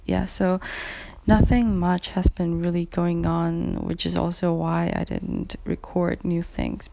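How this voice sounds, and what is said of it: Cracky, rough voice. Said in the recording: “as you can probably hear from my voice. It's pretty cracky”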